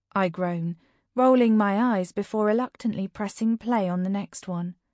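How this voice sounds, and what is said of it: Usual voice. Nothing is said of it.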